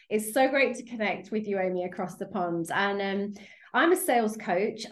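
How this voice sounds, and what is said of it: British accent. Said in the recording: “As you can probably hear from my accent, I'm over in the UK.”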